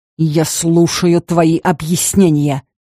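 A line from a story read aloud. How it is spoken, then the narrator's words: Growled again. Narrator (Russian): еще раз рыкнул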